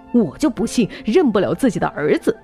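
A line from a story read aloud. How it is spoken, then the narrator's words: Angry. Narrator (Chinese): 他怒气冲冲的说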